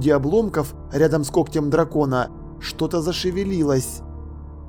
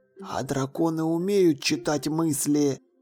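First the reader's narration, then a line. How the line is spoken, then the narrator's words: Whispered question. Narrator (Russian): шепотом спросил Ваймс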